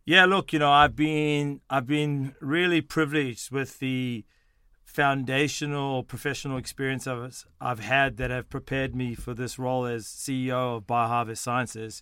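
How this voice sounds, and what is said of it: South African and Australian accent. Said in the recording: “People are probably wondering about my accent... I was born in South Africa, in Johannesburg, South Africa. I moved to Sydney, Australia at the age of 12”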